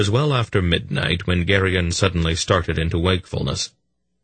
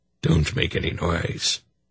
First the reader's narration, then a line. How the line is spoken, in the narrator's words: Belgarath said softly from the far side of the shelter